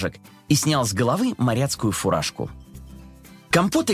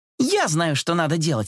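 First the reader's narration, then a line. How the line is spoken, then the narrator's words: Exclaimed. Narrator (Russian): воскликнула она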